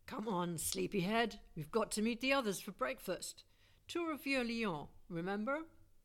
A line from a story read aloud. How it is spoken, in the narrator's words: I groaned